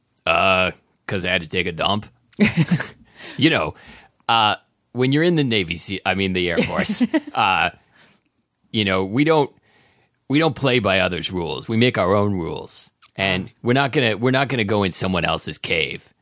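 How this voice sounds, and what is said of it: Performs a character voice. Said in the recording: “doing this voice”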